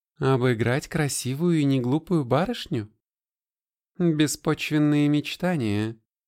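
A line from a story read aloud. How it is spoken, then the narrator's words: More natural tone. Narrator (Russian): продолжала уже гораздо более естественным тоном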